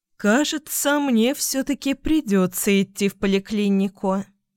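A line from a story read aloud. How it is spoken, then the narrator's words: Sigh, mother. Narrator (Russian): вздохнула мама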